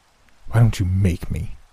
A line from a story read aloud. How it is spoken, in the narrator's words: He spat